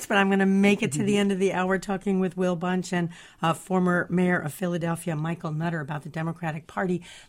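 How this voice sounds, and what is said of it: Hoarse, strained voice. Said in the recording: “I'm losing my voice,”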